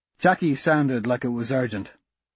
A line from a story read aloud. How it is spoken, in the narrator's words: I said